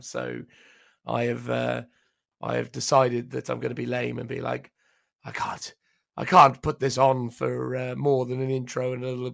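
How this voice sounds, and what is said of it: Sounds unwell. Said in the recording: “you might hear it in my voice. I'm not feeling exactly tip-top right now”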